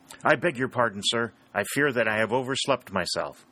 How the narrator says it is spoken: exclaimed Harry

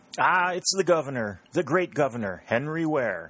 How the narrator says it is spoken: exclaimed

